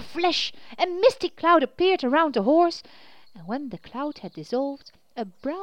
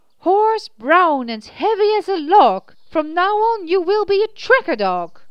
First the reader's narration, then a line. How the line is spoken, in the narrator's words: said in a clear voice